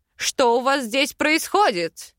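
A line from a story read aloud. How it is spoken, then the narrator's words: Furious bark. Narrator (Russian): Рявкнул Аринель яростный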